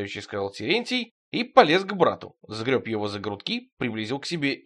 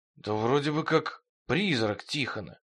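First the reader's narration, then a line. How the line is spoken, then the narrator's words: Whisper. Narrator (Russian): прошептал Терентий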